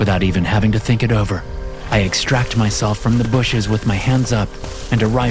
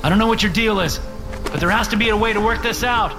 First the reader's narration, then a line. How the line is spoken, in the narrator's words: I shout